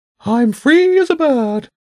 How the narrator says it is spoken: the pigeon cooed

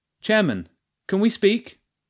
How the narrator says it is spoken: Jenny called out

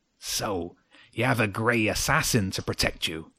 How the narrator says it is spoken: Chimera snarled

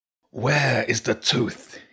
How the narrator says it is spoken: snarled

